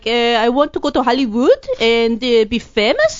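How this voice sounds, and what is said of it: Filipino-Spanish hybrid accent. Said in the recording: “this Filipino-Spanish weird hybrid accent”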